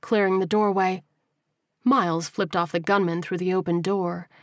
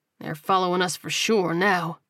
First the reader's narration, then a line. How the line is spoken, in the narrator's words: he muttered